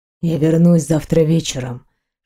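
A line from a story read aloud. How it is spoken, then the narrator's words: Whispered. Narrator (Russian): шепнул он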